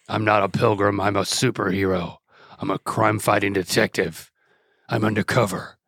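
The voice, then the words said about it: Put-on Batman character voice. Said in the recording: “That's why my voice is like this. This is not my normal voice... I'm Batman.”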